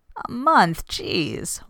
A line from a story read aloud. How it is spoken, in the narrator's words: whines Cam